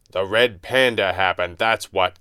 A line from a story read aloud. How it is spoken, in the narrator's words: Kane snapped